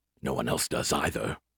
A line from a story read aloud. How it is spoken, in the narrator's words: he grumbled